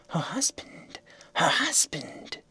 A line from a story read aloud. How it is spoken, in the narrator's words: the rustling, writhing crowd of snakes seemed to whisper to one another